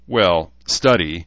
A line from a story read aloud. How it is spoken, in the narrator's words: Rachel said with an honest chuckle